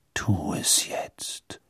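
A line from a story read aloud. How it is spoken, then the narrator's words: Father's voice whispering. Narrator (German): flüsterte die Stimme seines Vaters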